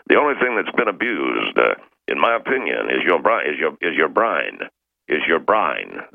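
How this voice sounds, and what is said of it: Put-on Cockney accent. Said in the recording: “That's my Cockney accent. ... I'm saying brain, all right? But it came out brine.”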